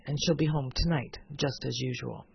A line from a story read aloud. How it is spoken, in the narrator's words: Comstock icily